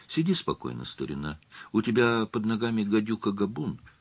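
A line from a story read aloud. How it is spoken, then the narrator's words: Soft, almost tender. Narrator (Russian): слегка откашлившись, я мягко, почти нежно произнес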